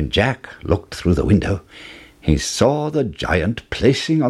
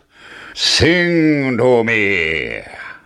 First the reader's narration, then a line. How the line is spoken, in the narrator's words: roared the giant